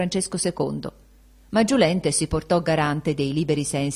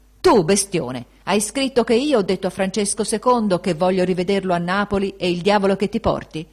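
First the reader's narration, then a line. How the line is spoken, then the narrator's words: Shouting in someone's face. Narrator (Italian): gli gridò sul muso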